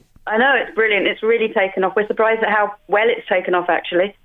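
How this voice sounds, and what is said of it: Slight English accent, some Irish. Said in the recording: “I detect an English accent there, do I? ... I still got the accent. Although when I go home, people tell me I have an Irish accent. ... it's only slight, as I say”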